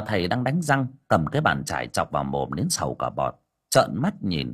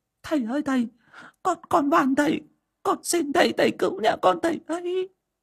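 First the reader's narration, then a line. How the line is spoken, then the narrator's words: Woman weeping, pleading. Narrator (Vietnamese): bà Hậu khóc lóc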